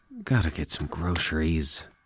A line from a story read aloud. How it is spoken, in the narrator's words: he mumbled